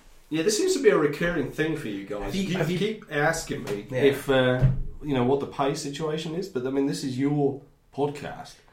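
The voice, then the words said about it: North Yorkshire English accent. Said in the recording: “North Yorkshire ... That's where I picked up the strange accent ... It's a bit weird.”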